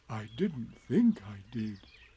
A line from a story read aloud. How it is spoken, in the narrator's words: said Pooh anxiously